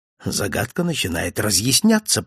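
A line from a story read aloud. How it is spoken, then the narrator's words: Whispered. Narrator (Russian): прошептал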